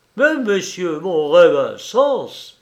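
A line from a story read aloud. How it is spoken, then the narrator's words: Surgeon exclaiming. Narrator (French): s'écria le chirurgien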